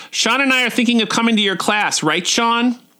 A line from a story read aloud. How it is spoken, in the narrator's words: Abby shouts out